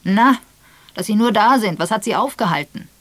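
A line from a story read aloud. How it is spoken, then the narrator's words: Booming voice. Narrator (German): Raphael mit polternder Stimme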